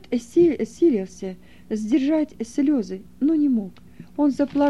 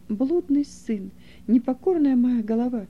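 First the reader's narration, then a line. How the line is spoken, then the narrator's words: Old man muttering, sobbing. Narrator (Russian): твердил про себя старик, всхлипывая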